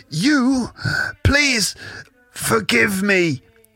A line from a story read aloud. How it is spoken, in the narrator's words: gasps the groundskeeper